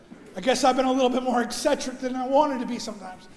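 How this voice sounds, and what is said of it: Hoarse, strained voice. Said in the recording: “I'm losing my voice this morning.”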